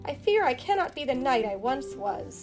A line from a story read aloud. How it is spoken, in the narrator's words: says sadly